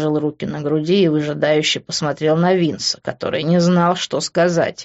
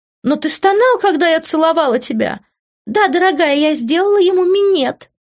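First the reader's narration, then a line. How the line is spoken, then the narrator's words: Shrieking. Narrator (Russian): взвизгнула Иви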